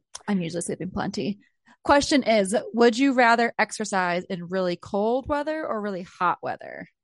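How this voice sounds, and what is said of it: Scratchy, raspy voice. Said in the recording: “My voice is like all scratchy too ... do you hear my voice? I'm like getting all raspy.”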